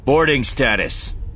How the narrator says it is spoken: he added, raising his voice

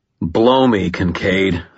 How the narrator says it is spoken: I growled

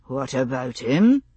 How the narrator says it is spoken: He replied wearily

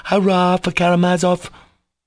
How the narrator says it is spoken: Kolya cried once more rapturously

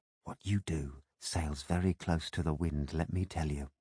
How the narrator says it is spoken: she said in a hushed voice

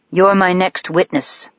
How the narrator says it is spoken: he says evenly

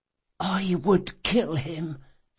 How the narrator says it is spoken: she whispered

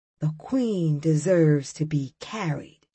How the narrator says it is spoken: one of the big guys in my class whispered

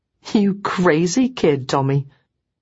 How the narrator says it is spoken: I laughed too and said

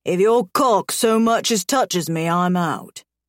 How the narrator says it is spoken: Garrett growls

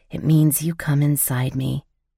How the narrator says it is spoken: the excitement coursing through my veins as I whispered

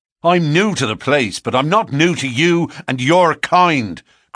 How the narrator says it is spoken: cried McMurdo in cold fury

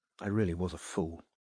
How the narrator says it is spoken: said Gloria quietly

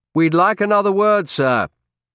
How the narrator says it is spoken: I said loudly

